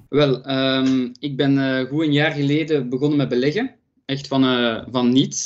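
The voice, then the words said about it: Juicy regional Flemish accent. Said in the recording (Dutch): “je hebt een beetje sappig accent. Dat, dat mij bijna doet denken aan het accent van onze gast hier vandaag, van”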